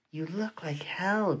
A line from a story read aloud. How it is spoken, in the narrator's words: Gloria whispered